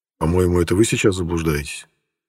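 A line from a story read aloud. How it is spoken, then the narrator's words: Muttered. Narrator (Russian): пробормотал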